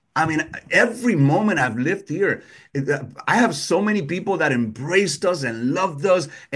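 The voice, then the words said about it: Speaks with a noticeable accent. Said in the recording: “You could hear my accent.”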